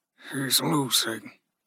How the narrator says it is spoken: Ruzi said softly

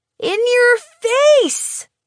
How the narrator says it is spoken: Garver yells across the table at me

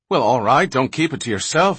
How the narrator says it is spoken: exclaimed Menyon impatiently

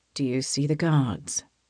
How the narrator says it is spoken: His whisper warms the shell of my ear

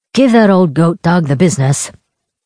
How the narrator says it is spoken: Kavik said

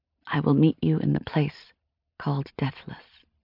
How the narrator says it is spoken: I whispered

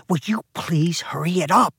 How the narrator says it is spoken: she hissed

